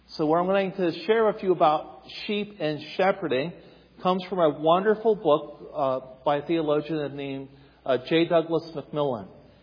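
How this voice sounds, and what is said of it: Appalachian American accent. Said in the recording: “if you're wondering where the accent comes from, I'm Appalachian. I'm from Eastern Ohio.”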